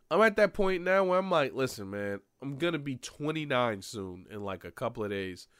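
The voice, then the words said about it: Stuffy, slightly nasal voice. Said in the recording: “My nose is a little stuffy, so my voice is a little nasally”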